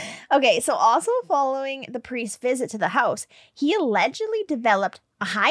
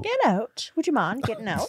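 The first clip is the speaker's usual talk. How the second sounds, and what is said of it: Put-on English accent. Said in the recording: “All of a sudden, you're in an English accent.”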